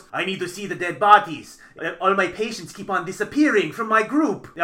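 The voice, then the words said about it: Bad imitation of thick foreign accent. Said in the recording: “I'm doing a very bad accent because he has this very thick, weird accent”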